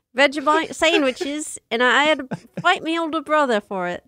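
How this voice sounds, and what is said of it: Poor attempt at Australian accent. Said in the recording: “That's not Australian. No, I didn't do good there. That wasn't a good accent.”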